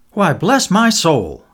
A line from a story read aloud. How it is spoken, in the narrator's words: exclaimed